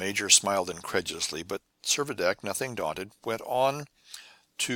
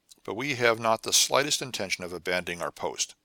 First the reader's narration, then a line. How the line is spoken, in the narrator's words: answered the major stiffly